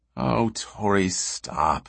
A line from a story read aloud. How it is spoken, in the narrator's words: she said wearily